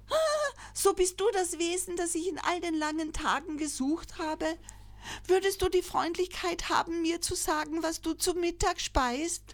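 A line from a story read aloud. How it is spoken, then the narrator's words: Joyful call. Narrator (German): rief freudig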